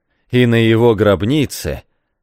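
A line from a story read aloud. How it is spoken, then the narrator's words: Sarcastic exclamation. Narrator (Russian): язвительно вскричал Эмиль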